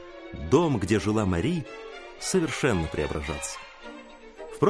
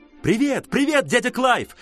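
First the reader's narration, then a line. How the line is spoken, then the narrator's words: Shouted. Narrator (Russian): закричала Мари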